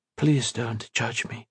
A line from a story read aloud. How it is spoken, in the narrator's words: she whispered